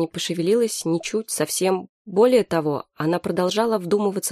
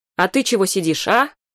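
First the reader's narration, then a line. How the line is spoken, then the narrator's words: Shout. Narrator (Russian): закричала она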